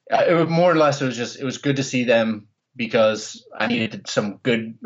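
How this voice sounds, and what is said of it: Philadelphia accent. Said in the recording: “Philadelphia ball busting... I'm glad to hear you haven't uh, lost your accent either”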